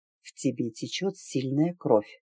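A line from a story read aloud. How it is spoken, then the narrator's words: Sudden very quiet. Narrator (Russian): вдруг совсем тихо сообщил южанин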